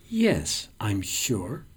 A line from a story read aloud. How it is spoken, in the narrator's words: my beloved hisses